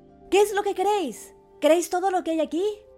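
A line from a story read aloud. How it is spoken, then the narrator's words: Shouting again. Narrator (Spanish): gritó de nuevo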